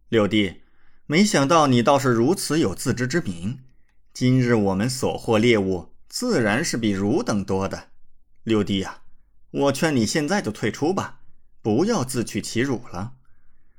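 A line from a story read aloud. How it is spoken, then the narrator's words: Cold sneer. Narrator (Chinese): 李乾立刻冷笑道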